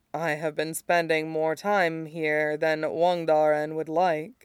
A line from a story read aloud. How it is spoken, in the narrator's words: she says softly